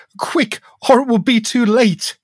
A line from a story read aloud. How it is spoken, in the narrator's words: cried the ghost